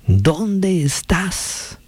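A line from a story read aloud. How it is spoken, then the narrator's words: Shouting again. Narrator (Spanish): gritó otra vez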